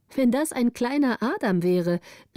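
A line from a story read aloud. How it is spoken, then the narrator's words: Called out. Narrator (German): rief Gritta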